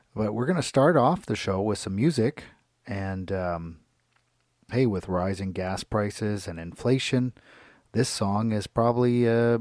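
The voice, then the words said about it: Hoarse, strained voice. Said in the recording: “lost my voice recently from, I think, not screaming, but yelling out too much at a recent concert ... my voice not in its top form today”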